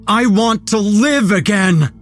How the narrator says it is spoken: shouted for all of them to hear

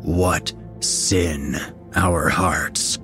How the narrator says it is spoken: said the second voice, and it was no longer an echo but a full-fledged snarl

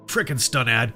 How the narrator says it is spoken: Polly grumbled

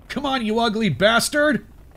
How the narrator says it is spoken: I yelled

